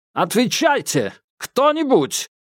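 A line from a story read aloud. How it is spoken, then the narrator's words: Shouted. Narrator (Russian): прокричал рыжий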